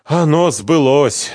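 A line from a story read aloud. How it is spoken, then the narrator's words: Sighing. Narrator (Russian): вздохнул Чхиидзе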